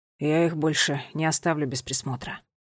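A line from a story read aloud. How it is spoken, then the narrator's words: Quiet. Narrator (Russian): он тихо сказал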